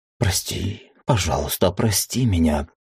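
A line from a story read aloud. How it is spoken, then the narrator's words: Whisper. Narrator (Russian): шептала она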